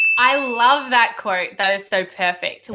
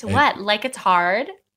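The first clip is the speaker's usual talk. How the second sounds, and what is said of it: American accent, Elle Woods quote. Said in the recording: “Oh, with the accent. ... Probably have a better American accent than what I do.”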